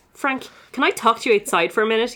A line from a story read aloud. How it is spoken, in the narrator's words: He snaps